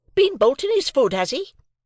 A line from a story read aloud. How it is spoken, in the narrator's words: cried my sister